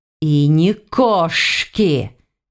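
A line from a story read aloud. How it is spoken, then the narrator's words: Hissing. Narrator (Russian): перешел на шипение Силарин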